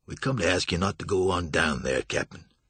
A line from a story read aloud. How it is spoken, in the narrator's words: Toby said